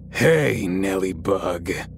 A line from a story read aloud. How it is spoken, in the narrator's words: from right behind me, I heard in a deep, gravelly voice